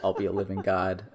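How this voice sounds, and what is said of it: Decent Willem impression via Chevy Chase. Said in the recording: “That's pretty decent. Pretty decent, Willem. ... your Willem was much more apt. ... I was really doing a poor impersonation of Chevy Chase in one episode of Community ... It worked its way around to being a decent Willem.”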